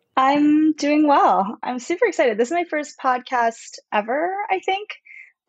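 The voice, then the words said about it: Hoarse voice. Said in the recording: “my voice is kind of hoarse.”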